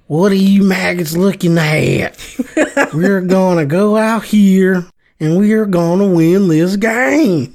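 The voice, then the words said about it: Gruff drill-sergeant movie character impression. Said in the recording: “an imitation of Major Payne ... a little more nasally, I think you would have nailed it”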